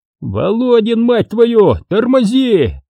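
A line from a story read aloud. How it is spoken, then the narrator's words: Yelled almost in unison. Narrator (Russian): Чуть не хором заорали все трое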